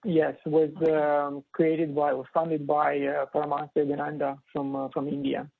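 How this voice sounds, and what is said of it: Beautiful accent, quick speech. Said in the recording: “You have such a beautiful accent, and it said it so quickly. ... You talk faster than I did.”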